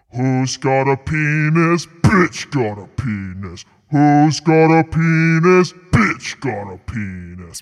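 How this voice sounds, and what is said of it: Deep lowered Satan-like singing voice. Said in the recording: “Lower my voice like Satan right now when I sing this”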